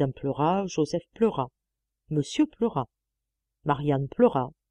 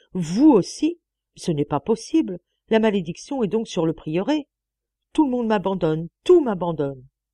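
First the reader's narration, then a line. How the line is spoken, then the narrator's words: Exclamation. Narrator (French): s'écria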